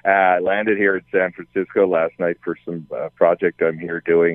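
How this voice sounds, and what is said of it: Newfoundland accent. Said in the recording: “I'm a Newfoundlander. That may be being portrayed by my accent right now.”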